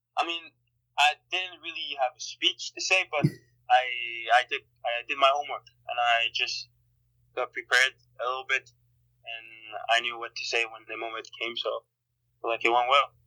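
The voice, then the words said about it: Slight Montreal French accent. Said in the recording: “I can hear a little bit of your Montreal accent.”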